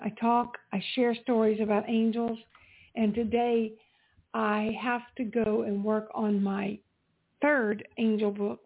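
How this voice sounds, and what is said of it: Strained, hoarse voice closing down. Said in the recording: “you can hear my voice is beginning to close down”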